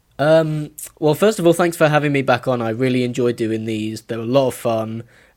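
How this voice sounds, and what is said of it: Speaks with a noticeable accent. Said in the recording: “your lovely accent”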